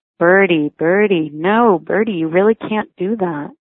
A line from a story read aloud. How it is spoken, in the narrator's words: Ben say evenly